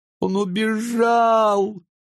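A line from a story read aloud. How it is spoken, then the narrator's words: Speaking through tears. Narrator (Russian): говорила она сквозь слезы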